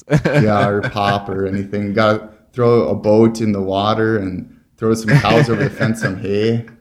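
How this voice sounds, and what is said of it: North Dakota accent. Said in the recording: “Don't play up the accent too much ... North Dakotans ... accents pretty distinct ... something other than an East Coast accent”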